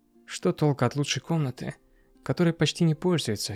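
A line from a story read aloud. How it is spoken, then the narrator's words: Plain. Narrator (Russian): всегда говорит она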